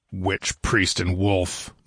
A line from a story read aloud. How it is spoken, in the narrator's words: muttered Zeltotin grimly, and laughed